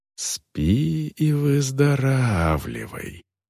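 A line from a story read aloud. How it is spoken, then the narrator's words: Whisper. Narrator (Russian): прошептала Вол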